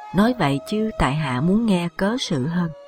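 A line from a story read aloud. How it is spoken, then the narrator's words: Smiling. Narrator (Vietnamese): Diệp Khai mỉm cười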